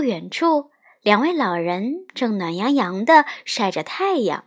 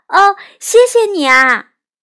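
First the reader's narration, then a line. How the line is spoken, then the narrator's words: Calling out. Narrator (Chinese): 玛吉特向吉吉喊道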